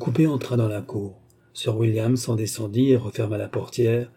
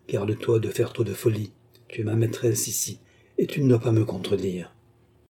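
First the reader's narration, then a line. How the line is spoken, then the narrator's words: Whispered into ear. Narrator (French): souffla Williams à l'oreille de la courtisane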